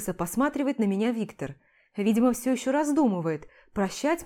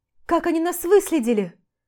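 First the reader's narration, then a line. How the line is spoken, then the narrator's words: Frightened cry. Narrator (Russian): Испуганно вскрикиваю я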